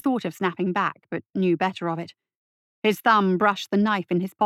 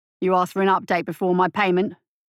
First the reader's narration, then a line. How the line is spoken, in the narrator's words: he asked through gritted teeth